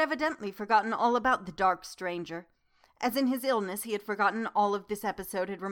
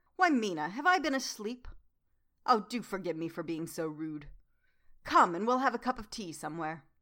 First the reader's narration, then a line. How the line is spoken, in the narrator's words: In about 20 minutes he woke up, and said to me quite cheerfully